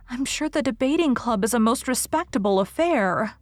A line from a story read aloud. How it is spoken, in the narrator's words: pleaded Anne